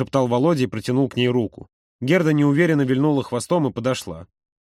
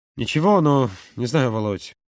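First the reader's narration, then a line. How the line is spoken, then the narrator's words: Strained mutter. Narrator (Russian): сдавленно пробормотал Юра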